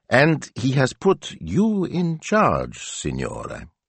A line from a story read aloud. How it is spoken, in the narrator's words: he went on, his voice heavy with suspicion